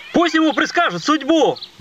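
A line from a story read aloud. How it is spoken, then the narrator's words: Shouted out. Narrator (Russian): выкрикнул один из репортеров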